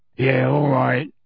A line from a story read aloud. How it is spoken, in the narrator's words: he grunted